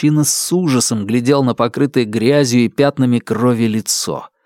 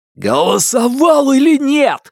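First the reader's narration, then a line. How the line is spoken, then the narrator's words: Shouted. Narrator (Russian): закричал Фанму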